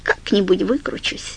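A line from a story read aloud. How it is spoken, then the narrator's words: Soft. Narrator (Russian): мягко сказала Фрэнни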